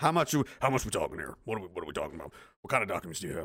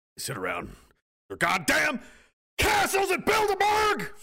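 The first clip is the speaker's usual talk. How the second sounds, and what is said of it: Imitates another person's voice, shouting. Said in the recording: “do an Alex Jones impersonation”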